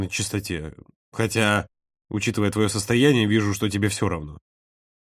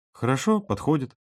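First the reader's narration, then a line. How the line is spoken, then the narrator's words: Simple. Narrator (Russian): просто сказал Володя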